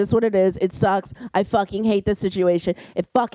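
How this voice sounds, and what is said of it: Usual voice. Nothing is said of it.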